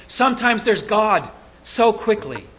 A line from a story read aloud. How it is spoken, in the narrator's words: At a point of special relief and joy, Blanche DuBois exclaims